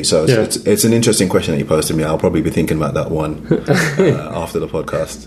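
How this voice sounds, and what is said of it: Slight British accent. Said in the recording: “You have a little accent that's clearly British.”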